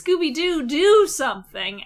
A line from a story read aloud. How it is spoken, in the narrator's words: Shaggy yells